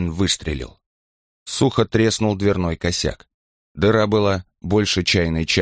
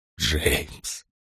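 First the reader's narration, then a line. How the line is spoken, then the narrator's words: Whisper. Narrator (Russian): прошептал он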